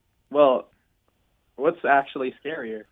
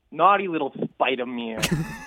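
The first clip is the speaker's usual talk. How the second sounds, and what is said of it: New York accent with a lisp. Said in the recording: “You say that with a lisp ... That's not even a lisp. That's just like a New York accent ... With a lisp as well.”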